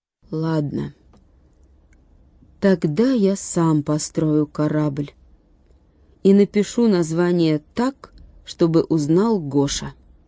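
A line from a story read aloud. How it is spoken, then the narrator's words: Slow and stubborn. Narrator (Russian): он медленно и упрямо сказал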